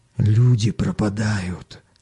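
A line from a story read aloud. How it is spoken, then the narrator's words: Whisper. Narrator (Russian): шепотом сообщил коренастый челнок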